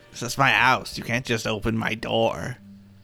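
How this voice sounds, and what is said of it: Old woman character voice. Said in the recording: “doing a bad impression of a woman. That's exactly what she sounded like.”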